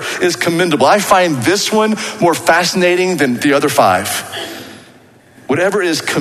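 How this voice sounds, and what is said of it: Usual voice. Nothing is said of it.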